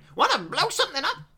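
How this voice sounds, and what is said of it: Crazy Texan-style character voice. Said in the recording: “He's got like a crazy accent ... Texan”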